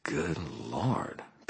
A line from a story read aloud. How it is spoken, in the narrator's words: Billy breathed